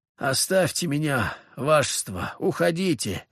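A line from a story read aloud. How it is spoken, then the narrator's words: Groaning soldier. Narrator (Russian): простонал гвардеец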